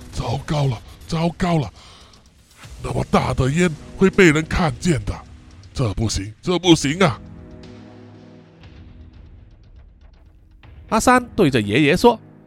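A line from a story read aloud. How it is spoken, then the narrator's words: Muttering to himself. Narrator (Chinese): 爷爷 口中喃喃自语的说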